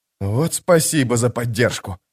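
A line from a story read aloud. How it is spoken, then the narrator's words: Muttered. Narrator (Russian): пробормотал Кальп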